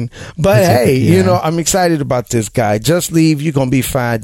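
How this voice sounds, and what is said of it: Loud, distorting excited voice. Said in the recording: “my voice is getting loud ... I'm distorting”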